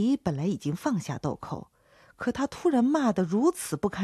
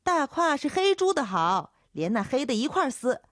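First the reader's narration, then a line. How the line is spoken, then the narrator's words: Young voice shouting back. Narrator (Chinese): 叫豆蔻的年少姚杰喊回去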